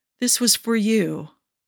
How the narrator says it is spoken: he said tenderly

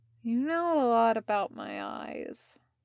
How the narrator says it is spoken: mumbled Leo

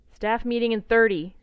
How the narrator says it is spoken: she calls loudly

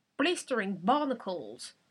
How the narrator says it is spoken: Haddock exclaimed

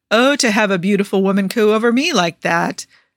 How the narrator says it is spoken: sighs

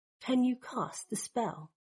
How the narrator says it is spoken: he asks quietly

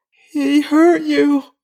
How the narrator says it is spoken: Shunwei moaned

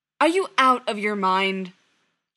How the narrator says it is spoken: John snapped

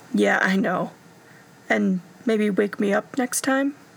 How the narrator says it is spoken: Stiles groaned

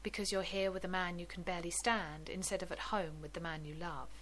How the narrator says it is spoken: the blonde answered calmly

